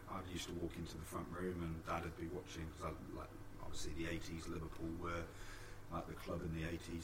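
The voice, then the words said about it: British (UK) accent. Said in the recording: “pick up the accent ... you're from the UK”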